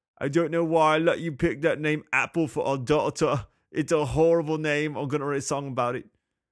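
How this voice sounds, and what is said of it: Bad put-on accent. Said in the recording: “Man, that was a bad accent.”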